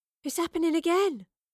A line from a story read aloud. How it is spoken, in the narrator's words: gasped Astrid